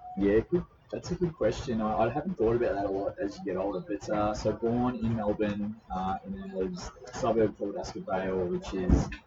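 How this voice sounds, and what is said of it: Australian accent. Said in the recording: “he has a very distinct accent, and he's coming to join me today from down under”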